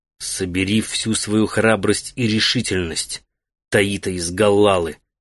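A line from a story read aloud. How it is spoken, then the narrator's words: Whispered. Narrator (Russian): прошептал он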